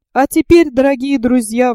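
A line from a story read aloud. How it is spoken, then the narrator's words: Exclaimed. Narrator (Russian): воскликнул Паганель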